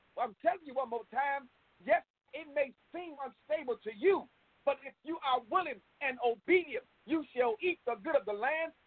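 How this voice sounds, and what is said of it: Impassioned preacher-style delivery. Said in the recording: “Boy, I felt my preacher voice.”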